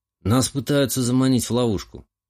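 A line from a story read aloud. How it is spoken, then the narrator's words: Wry snort. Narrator (Russian): хмыкнул я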